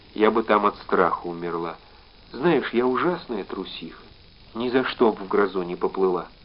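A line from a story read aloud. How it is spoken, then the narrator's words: Quiet, sighing. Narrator (Russian): вздохнув, сказала тихо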